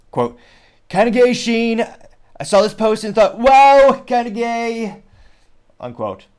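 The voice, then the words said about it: Donald Trump impression. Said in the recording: “Shane Gillis, bar none, has the best Trump impression ... he's trying to go for Shane's Trump impression, which this might hurt your earballs ... I will attempt to do the Trump the Trump impression”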